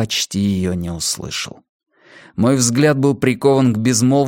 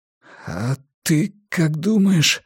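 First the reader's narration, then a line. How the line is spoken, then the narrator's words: Forced out. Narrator (Russian): выдавил я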